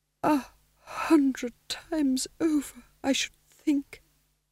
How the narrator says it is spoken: said Vitola weakly

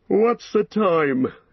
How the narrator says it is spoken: he said sleepily

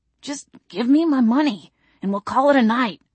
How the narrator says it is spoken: Todd wheezed

